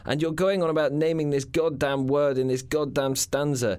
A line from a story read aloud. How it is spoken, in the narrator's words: she cried